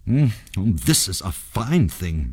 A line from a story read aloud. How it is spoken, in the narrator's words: muttered Sanjay